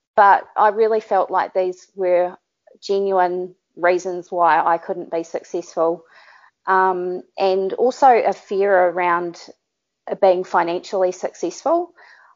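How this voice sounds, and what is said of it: New Zealand accent. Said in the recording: “having a Kiwi accent”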